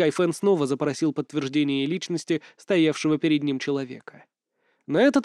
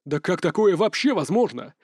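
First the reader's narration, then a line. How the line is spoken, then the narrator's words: Exclaimed. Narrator (Russian): воскликнул Сюй Хайфэн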